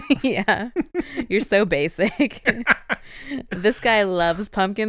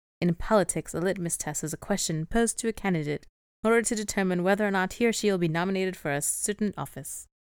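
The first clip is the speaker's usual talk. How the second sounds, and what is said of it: Reading in a put-on accent. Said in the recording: “I don't know why I read it in that accent.”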